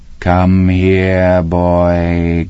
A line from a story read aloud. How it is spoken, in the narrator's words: Grandma called in a dead, buzzing voice